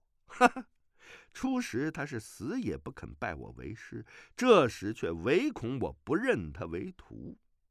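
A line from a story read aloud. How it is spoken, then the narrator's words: Silent inner laugh. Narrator (Chinese): 段誉心下暗笑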